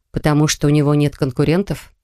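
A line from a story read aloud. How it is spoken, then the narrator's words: Plain. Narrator (Russian): ответила я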